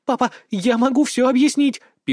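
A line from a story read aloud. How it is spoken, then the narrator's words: Squeak. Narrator (Russian): пискнула Элойна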